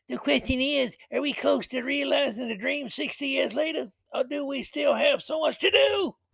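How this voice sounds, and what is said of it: Imitates another person's voice. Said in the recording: “my Whoopi Goldberg impersonation. Yeah, it's a work in progress.”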